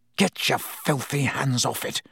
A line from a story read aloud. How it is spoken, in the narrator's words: Harry snarled under his breath